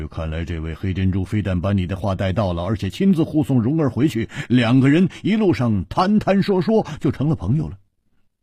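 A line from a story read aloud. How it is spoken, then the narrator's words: Laughing. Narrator (Chinese): 胡铁花笑着说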